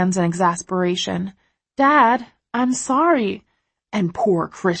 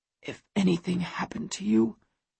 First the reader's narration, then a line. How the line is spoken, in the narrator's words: he whispers, his voice hoarse and low